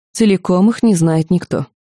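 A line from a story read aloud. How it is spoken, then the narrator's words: Calm objection. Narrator (Russian): спокойно возразила смотрительница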